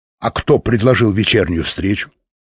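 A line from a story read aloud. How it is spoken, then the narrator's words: Sharp question. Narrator (Russian): резко спросил Фаш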